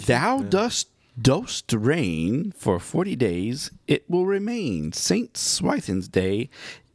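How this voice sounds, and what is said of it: Oklahoma accent. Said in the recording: “In my Oklahoma accent.”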